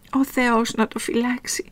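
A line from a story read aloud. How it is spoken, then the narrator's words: Crying while speaking. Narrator (Greek): έλεγε Μαριγό κλαίγοντας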